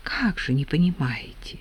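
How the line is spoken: Low near-whisper. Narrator (Russian): Полголоса почти шепотом ответила Марья Трофимовна

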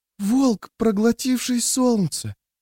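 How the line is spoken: Whispered. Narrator (Russian): прошептала

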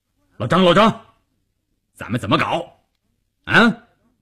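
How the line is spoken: Loud. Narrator (Chinese): 关山林大声地说

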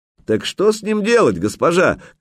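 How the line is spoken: Shouted after someone. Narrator (Russian): крикнули ей вслед

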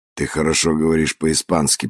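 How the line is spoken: Mutter. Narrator (Russian): пробормотал Санчес

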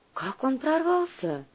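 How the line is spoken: Sighing. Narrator (Russian): вздохнула Сусанна

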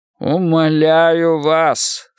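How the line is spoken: Muffled hollow voice. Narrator (Russian): сказал глухим голосом

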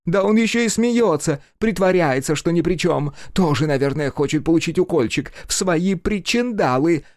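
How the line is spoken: Shrieking. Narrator (Russian): Завизжала женщина

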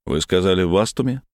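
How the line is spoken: Chuckling. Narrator (Russian): Глеб, не удержавшись, хохотнул

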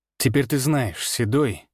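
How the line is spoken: Cold voice. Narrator (Russian): сказал я холодно

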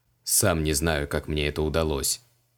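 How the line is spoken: Muttered. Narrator (Russian): пробормотал маг

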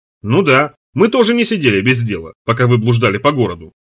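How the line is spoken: Cheerful remark. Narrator (Russian): замечает Дюран веселым тоном

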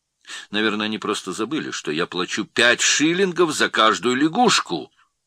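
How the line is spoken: Loud and clear. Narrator (Russian): отвечал громко и отчетливо

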